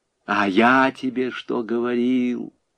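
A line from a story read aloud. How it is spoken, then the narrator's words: Gentle, affectionate. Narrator (Russian): ласково сказал Буденный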